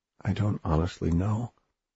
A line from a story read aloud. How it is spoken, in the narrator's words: Oliver said softly